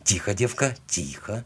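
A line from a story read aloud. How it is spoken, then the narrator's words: Whisper. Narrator (Russian): прошептал я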